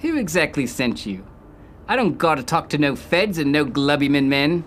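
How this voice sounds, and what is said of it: Obviously fake accent. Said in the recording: “Your accent is perplexing because it's obviously fake.”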